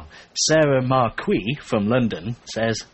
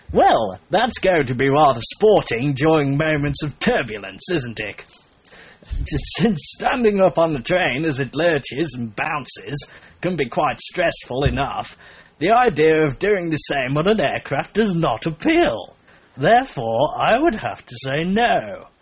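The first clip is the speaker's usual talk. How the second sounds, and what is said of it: Put-on posh voice. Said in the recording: “I put that stupid voice on because she sounds very posh”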